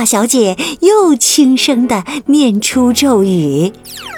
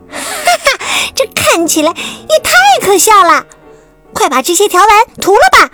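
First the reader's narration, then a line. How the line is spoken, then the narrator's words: Mocking. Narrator (Chinese): 霸道小姐嘲笑说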